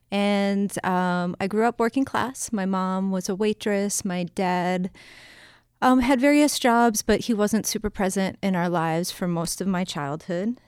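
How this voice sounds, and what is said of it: Boston accent, dropped R's. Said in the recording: “you'll hear on occasion that I don't pronounce my R's. I really, really try to, but I still have a Boston accent.”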